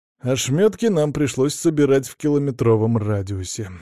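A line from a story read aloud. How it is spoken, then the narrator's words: Wistful reminiscing sigh. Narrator (Russian): вздохнул я, поддавшись воспоминаниям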